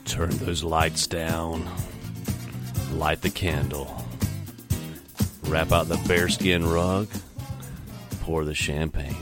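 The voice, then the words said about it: Deep, sultry baritone voice. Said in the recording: “I sound like I have a 900 number phone voice, man... I got the baritone going.”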